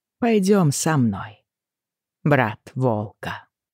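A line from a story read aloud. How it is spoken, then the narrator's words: Plain. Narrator (Russian): сказала она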